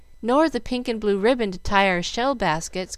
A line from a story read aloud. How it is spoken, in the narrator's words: cried Mamie